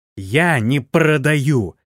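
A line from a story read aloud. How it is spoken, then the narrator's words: Girl growling. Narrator (Russian): рычала девушка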